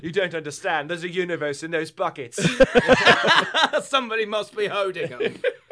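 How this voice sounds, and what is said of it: British Doctor Who character voice. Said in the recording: “Is that your Doctor Who impression?”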